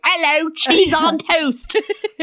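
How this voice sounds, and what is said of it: Put-on English street urchin accent. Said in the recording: “my impression of an English street urchin”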